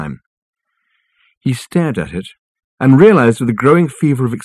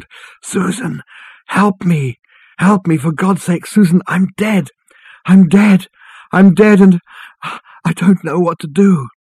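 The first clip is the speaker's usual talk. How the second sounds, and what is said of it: Hoarse, distant wailing cry. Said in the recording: “his voice a hoarse and distant wail on the wind”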